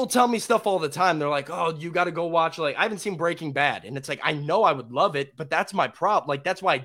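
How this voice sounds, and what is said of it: Usual voice. Nothing is said of it.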